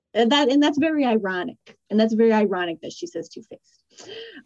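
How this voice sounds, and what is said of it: Slight Rhode Island accent. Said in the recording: “did you hear the accent come out right there? ... It sounded like accent, a little Rhode Island. ... Yeah, that was Rhode Island accent. It came out right there.”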